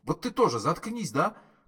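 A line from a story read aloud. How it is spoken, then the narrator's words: Furious shout. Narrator (Russian): крикнул разъяренно Форд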